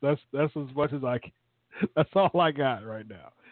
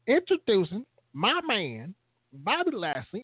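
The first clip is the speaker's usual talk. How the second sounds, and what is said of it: Imitates another person's voice. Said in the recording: “That's my closest impersonation of Leo Rush. That's close enough.”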